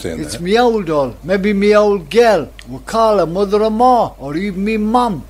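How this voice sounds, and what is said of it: Geordie dialect. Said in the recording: “a poet with the Geordie dialect.”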